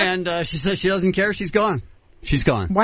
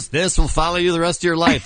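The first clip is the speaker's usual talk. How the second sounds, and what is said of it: Imitates another person's voice. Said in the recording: “my Donald Trump impression. ... That was very strong.”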